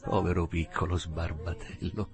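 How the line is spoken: Murmured. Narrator (Italian): mormorò

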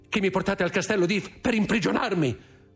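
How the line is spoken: Exclamation. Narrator (Italian): esclamò

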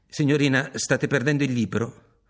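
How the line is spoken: Firm voice. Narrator (Italian): le dissi con voce ferma

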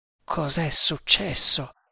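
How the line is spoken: Murmured. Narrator (Italian): mormorò

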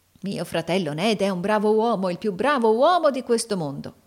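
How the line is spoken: Exclamation. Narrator (Italian): esclamò Carlo Cheeryble

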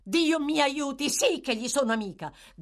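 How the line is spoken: Girl shouting passionately. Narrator (Italian): gridò con foga la ragazza

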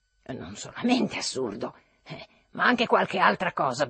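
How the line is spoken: Grumbled. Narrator (Italian): brontolò Trudoliubo

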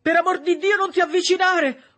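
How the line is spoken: Horrified shouting. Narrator (Italian): urlò Septimus, perché non tollerava di vedere i morti

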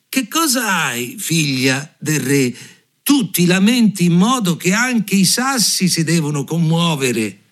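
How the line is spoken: Shout. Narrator (Italian): le gridò

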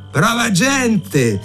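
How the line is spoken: Blind man shouting from afar. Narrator (Italian): gridò il cieco di lontano

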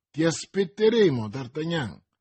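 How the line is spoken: Deliberately loud. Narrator (Italian): disse Athos a voce abbastanza alta perché il cardinale lo sentisse

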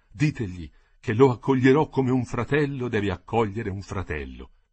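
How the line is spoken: Moved voice. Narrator (Italian): ripigliò Garibaldi con voce commossa

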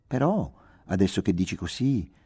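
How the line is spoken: Gentle. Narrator (Italian): proferì dolcemente

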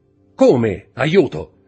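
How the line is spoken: Shout. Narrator (Italian): gridò la voce del signore di Villefort, uscendo precipitosamente dallo studio

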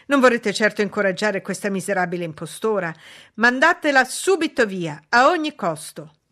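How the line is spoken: Exclamation. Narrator (Italian): esclamò

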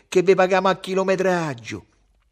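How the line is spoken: Shouting. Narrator (Italian): gridava Ugo

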